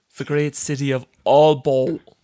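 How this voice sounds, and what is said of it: Poor put-on Danish accent. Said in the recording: “me butchering a Danish accent”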